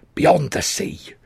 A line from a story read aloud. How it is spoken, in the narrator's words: he hissed